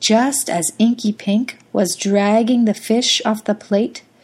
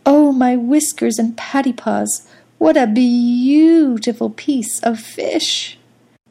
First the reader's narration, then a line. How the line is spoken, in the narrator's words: He purred happily to himself